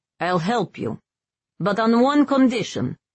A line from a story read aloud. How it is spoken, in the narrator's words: he barked